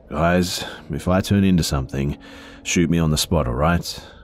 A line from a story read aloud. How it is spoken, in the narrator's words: he said to us in a hoarse voice that was much deeper than his natural tone